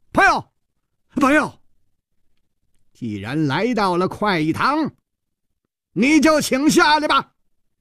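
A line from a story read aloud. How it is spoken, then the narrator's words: Loud, humorless shout. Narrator (Chinese): 冷秋魂的笑声一下就锁住了，全身上下立刻再没有丝毫的笑意，大声地喊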